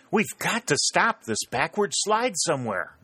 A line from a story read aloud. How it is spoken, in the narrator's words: gasped Pennington